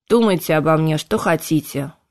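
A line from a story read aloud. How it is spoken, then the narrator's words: Gloomy reply. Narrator (Russian): мрачно отозвался Кайден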